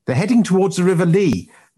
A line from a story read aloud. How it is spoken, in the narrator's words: Knight yelled over his shoulder